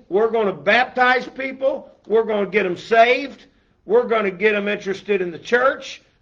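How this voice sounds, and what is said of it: Raised, loud preaching voice. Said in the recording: “my voice is a little elevated”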